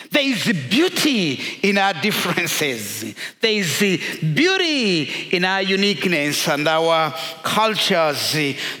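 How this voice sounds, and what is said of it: African-accented English. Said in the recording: “my accent being very much different from your accent ... if everyone spoke English like Americans ... You haven't been to Africa. We speak English in different”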